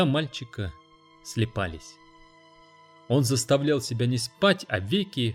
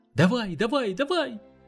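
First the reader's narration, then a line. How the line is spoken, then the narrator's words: Boy shouting. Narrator (Russian): закричал мальчик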